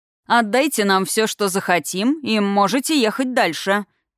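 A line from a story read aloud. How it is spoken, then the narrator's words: Condescending mocking bass. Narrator (Russian): снисходительно насмешливо пробасил перегородивший тракт мужчина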